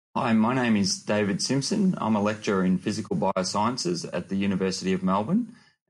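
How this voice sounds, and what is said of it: Australian accent. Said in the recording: “I can tell by the accent that you're an Aussie”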